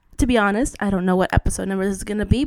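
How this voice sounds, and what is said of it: Congested, worn-out voice with sniffling. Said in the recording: “excuse the sniffling, I have a cold, and if I have party girl voice, ... I killed my voice”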